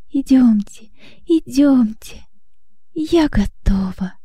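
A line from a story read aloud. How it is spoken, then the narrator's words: Exclaiming. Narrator (Russian): воскликнула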